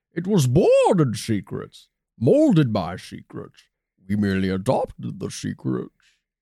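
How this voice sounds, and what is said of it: Bane movie villain voice. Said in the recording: “I slipped into my Bane from The Dark Knight Rises again. My famous Bane impression.”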